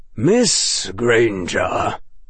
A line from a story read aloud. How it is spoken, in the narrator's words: he said, and his voice was grave